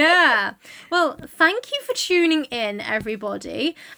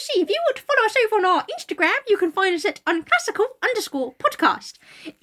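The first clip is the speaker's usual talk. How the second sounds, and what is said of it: Bad New Zealand put-on accent. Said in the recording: “you have to do it in a very bad New Zealand accent. ... It might go Australian. It might vanish. ... It might go South African. ... It's going to a stereotypical Cockney now.”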